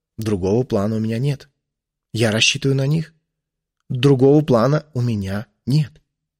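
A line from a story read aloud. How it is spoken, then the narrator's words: Said quietly. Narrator (Russian): тихо сказал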